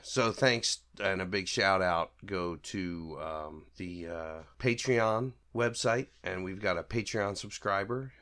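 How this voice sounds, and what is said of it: Voice rough from sickness. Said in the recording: “pardon my voice. I'm a little sick, um, or I've been a little sick. I'm getting over it, but my voice is still kind of messed up”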